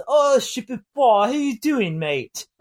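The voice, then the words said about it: Put-on English accent. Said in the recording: “English accents”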